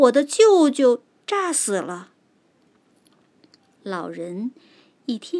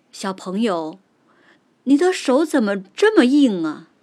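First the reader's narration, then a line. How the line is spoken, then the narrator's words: Laughing, wooden puppet. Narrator (Chinese): 小木人笑了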